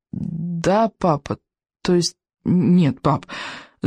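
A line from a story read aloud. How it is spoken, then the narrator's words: Stammering. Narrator (Russian): заикаясь, ответил Икинг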